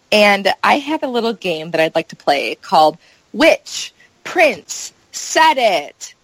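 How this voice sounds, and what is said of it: Game show announcer voice. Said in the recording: “that's my game show announcer voice”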